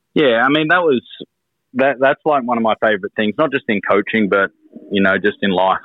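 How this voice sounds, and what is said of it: Australian accent. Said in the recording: “Australians in a different culture with the accent”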